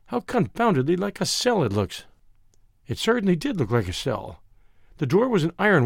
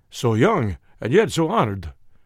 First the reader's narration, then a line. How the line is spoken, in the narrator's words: exclaimed